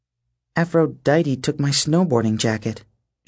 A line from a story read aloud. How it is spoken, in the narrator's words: she muttered